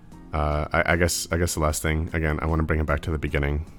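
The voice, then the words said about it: Tired voice. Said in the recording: “My voice is a little tired. I'm a little physically tired.”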